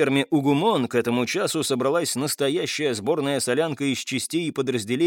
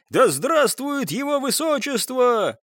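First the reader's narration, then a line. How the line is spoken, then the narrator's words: Crowd of soldiers yelling. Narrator (Russian): вопили 1,5 десятка измайловцев и 3 оставшихся в живых кавалергардов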